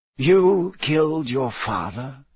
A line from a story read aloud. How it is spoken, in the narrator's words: Dumbledore said in the same soft voice